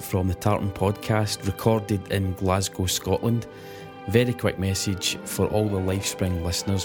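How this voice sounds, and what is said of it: Glaswegian Scottish accent. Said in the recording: “wonderful Glaswegian accent”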